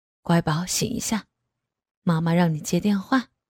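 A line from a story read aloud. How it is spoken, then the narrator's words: Gentle man. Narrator (Chinese): 男人眼眉间十分温柔，说道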